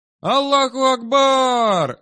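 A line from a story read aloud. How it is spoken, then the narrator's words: Joyful shout. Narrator (Russian): радостно закричал Хамзат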